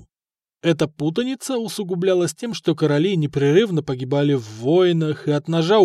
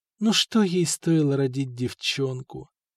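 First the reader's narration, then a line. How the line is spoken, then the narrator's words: Whispered through bitten lips. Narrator (Russian): шептала искусанными губами Нантильда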